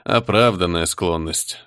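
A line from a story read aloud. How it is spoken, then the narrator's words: Sighing. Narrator (Russian): вздохнул Кортес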